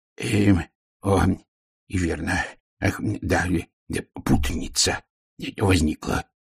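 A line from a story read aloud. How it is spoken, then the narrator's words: Mumbling. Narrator (Russian): пробормотал он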